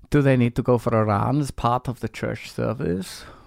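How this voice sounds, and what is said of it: Put-on Dutch accent. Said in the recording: “Maybe you don't have this Dutch accent I'm giving you ... Sorry, you don't probably have this accent.”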